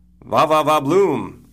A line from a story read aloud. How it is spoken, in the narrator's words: Caitlin shouts